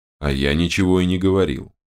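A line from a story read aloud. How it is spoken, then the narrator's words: Gloomy reply. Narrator (Russian): мрачно отозвался Терехов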